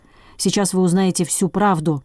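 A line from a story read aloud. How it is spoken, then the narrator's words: Vengeful, through teeth. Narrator (Russian): мстительно процедил Бурляев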